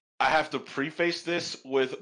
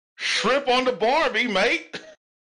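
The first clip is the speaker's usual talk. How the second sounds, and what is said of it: Bad put-on Australian accent. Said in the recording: “your best Australian accent? ... my best is my worst.”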